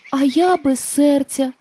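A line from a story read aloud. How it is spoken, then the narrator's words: Sighing, tin woodman. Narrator (Ukrainian): зітхнув бляшаний лісоруб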